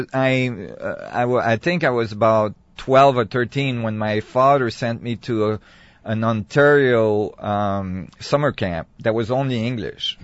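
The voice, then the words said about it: Quebecois French-accented English. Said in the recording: “a lot of people think I'm Quebecer when they hear my English, because I learned my English with a Quebecer accent ... your accent is not easy to place”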